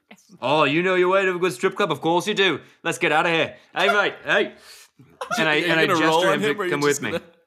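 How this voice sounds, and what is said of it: Unconvincing put-on Australian accent. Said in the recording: “This isn't a very good Australian accent, but I find it actually a very good George Clooney doing an unconvincing Australian. ... You don't know how unconvincing it is.”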